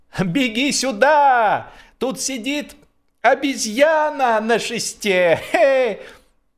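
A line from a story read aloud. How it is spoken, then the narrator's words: Boy shouting. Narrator (Russian): Невоспитанный мальчишка на берегу сейчас же крикнул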